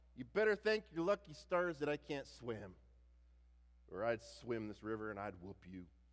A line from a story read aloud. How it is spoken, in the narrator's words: Rufus, Clarence would shout